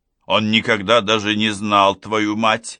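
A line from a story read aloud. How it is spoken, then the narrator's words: Angry father. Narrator (Russian): заметил папа сердито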